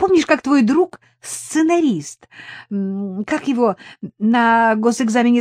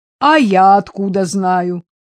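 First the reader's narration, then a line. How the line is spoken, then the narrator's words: Chiming in, laughing together. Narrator (Russian): подхватил, захохотали вдвоем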